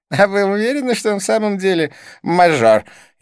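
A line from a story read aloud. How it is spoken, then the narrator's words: Snide question. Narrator (Russian): ехидно поинтересовался близнец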